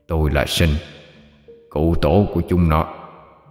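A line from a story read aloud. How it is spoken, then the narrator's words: Hoarse male voice. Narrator (Vietnamese): một giọng đàn ông khàn khàn vang lên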